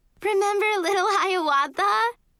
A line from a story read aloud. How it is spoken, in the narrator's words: Sophie screamed politely